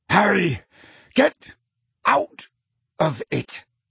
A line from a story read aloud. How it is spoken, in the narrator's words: snarled Sirius